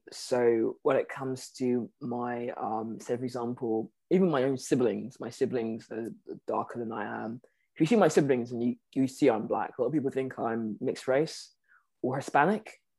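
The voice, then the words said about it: British accent. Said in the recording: “I have this British accent.”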